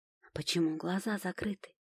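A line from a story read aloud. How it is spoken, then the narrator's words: Quiet question. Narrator (Russian): так же тихо спрашиваю их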